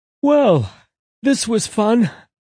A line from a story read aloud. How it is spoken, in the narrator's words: Angel yawned